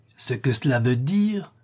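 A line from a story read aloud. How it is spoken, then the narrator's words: Exclaimed. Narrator (French): s'écria M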